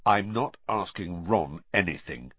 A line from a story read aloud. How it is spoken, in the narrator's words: Harry said, flatly